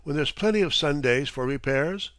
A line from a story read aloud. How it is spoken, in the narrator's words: exclaimed